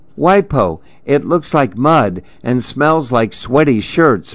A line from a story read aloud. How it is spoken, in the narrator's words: Mimi cried